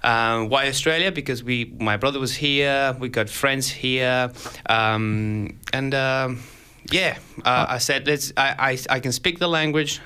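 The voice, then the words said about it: Spanish-influenced English accent. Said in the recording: “an audience that doesn't understand my accent ... people not understanding my accent”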